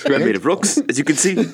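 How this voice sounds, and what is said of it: Impression of Taika Waititi's Korg. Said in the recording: “your impression of Taika Waititi as Korg”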